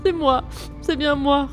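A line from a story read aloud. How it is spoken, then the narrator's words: Sobbing reply. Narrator (French): répondit l'infortuné en sanglotant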